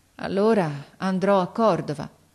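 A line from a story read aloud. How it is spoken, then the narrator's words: Boy's resigned sigh. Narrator (Italian): Il ragazzo mise un sospiro, poi disse con rassegnazione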